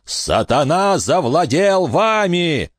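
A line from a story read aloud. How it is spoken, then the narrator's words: Furious yelling. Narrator (Russian): заорал Фальконер, и на его шее вздулись вены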